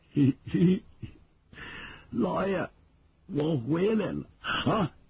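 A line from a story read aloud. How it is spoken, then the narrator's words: Laughing. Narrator (Chinese): 有人发笑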